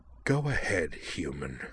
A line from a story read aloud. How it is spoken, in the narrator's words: Amanda hissed